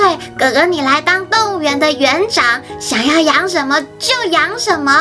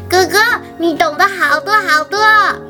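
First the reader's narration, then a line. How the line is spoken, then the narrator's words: Loud excited child. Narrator (Chinese): 玲玲呢，他就大声地拍手说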